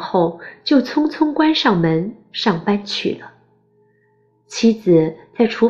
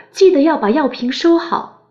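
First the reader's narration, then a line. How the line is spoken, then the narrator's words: Loud. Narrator (Chinese): 他只大声告诉妻子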